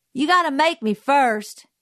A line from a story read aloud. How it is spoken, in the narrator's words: he yelled